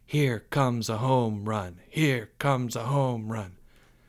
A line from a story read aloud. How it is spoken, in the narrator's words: His class began to chant softly